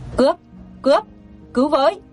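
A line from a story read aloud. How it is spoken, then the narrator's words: Loud shouting. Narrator (Vietnamese): tiếng người hét lớn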